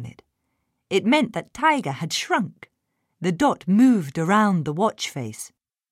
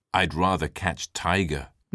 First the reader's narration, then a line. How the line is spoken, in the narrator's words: Max muttered